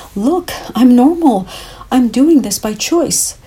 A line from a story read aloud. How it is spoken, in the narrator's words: fear of ridicule rising to the surface and wanted to scream